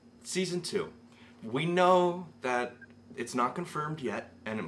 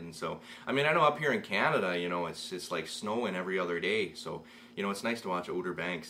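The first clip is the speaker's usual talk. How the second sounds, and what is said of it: Canadian accent. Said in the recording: “that's a little bit of Canadian accent for you there”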